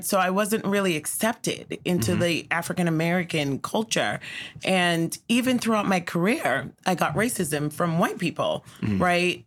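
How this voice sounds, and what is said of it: Island accent. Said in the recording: “I have an island accent, man. ... So my accent was completely different.”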